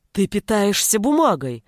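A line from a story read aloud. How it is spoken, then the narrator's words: Exclamation. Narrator (Russian): воскликнул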